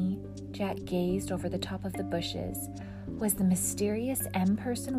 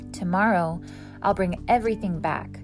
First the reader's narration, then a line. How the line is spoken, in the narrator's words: Jack said loudly